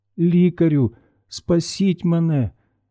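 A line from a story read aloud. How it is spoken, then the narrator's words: Weak moan. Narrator (Ukrainian): Знесилено стогнала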